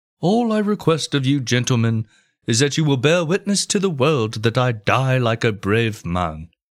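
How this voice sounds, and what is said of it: Mock Shakespearean English accent. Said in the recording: “in Shakespearean English accent.”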